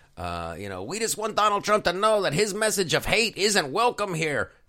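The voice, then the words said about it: Bad put-on Latino accent. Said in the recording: “I'm doing a horrible Latino accent”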